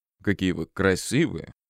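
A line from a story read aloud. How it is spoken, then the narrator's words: Purring. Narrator (Russian): мурлыкал он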